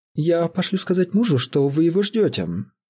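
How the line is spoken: Conciliatory tone. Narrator (Russian): сказала она примирительным тоном

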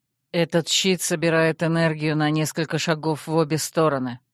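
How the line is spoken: Tired prince explaining. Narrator (Russian): так же устало пояснил принц

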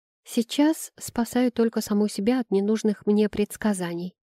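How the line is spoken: Quiet, ashamed. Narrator (Russian): отозвалась я тихо, борясь со стыдом

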